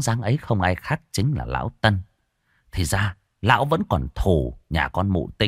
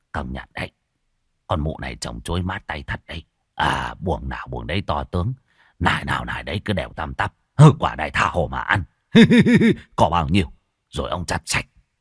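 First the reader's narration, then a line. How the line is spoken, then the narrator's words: Muttering. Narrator (Vietnamese): Vừa đi vừa lẩm bẩm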